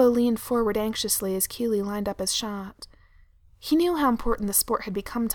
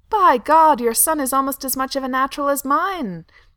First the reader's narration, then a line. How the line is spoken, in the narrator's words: Thranduil shouted over the roar of the crowd